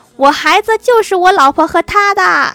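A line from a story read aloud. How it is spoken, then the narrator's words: Despairing middle-aged man shouting. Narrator (Chinese): 那个中年男子又绝望的大喊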